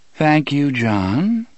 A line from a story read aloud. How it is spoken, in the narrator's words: Miss Avery said in her endlessly calm voice